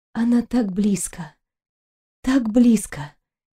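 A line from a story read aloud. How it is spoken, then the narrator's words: Sigh. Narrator (Russian): Кристина вздохнула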